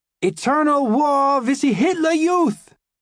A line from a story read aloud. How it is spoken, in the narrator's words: The Edelweiss pirates ... screaming